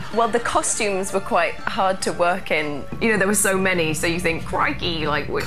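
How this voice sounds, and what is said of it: Fake English accent. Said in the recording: “Why are you mocking my accent? ... Because it's fake. ... I'm from London, England.”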